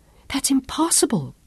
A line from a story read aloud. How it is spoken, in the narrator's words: Claudia whispered anxiously